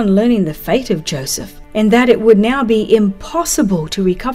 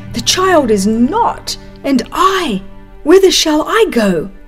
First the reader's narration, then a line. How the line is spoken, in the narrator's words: In alarm and self-reproach, exclaiming